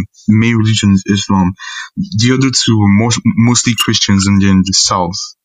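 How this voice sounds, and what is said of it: British-leaning Nigerian English accent. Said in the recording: “noticed you have a British accent ... the educated ones, speak mostly in, on the British side”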